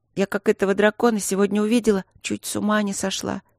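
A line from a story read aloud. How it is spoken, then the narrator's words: Sad speech. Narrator (Russian): грустно проговорила Каролинка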